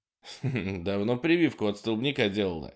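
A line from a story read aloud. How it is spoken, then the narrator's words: Giggle. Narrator (Russian): хихикнул Холден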